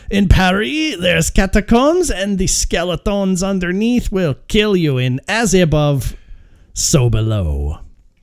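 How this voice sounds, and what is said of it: Exaggerated comic French accent. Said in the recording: “good French, like over-exaggerated French funny accent”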